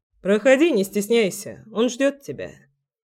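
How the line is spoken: Plain. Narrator (Russian): сказал Дима

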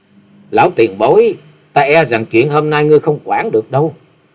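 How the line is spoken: Cold, young woman. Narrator (Vietnamese): Hắc y thiếu nữ lạnh lùng nói

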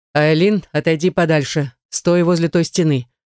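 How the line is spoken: Stern order. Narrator (Russian): Наяр строго так приказал

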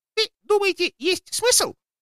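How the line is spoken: Timid squeak. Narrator (Russian): пискнул Феофан

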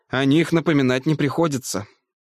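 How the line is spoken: Sighing. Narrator (Russian): вздохнул Дунгерсгейм

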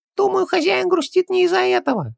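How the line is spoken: Sugary little voice. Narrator (Russian): слащавым голоском подсказал Джин

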